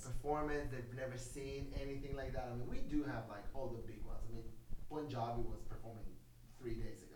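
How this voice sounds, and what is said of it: Israeli-accented English. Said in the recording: “the beautiful Israeli accent”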